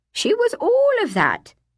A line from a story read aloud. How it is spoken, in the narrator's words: Miss Puddock laughed